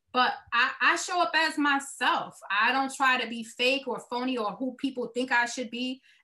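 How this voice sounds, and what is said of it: Brooklyn accent. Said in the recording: “This is me with this Brooklyn accent that you may or may not hear.”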